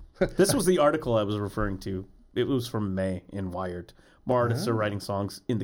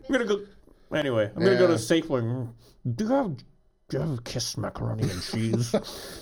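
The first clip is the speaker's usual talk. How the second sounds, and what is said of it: Imitates another person's voice. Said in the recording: “my horrible impression of Gene Simmons ... But pretty spot on, actually.”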